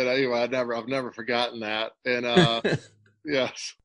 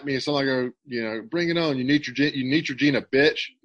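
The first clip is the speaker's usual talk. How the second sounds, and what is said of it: Big country accent. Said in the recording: “in a big country accent. I don't know how it came out”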